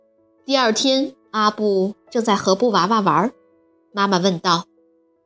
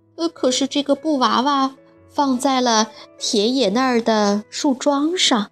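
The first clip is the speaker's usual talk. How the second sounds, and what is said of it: Speaking softly, quiet voice. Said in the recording (Chinese): “小声”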